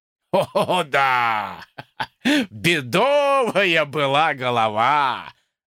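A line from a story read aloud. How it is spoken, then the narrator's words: Laughing. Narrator (Russian): засмеялся майор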